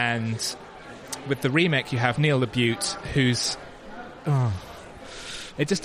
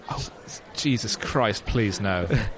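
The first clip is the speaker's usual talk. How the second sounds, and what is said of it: Imitates another person's voice, depressed. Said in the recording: “that your Edward Woodward impression? ... where he was really depressed about being killed”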